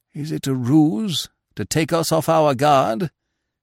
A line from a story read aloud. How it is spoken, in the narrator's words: said hoarsely